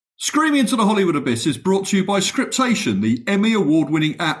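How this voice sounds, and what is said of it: Charming accent. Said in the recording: “Let somebody with a more charming accent do this bit.”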